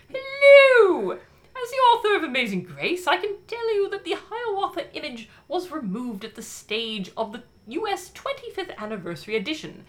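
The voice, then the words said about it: Bad put-on British accent. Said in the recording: “a bad British accent”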